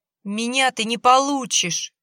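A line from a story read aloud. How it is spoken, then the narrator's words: Shouting. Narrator (Russian): кричала Валентина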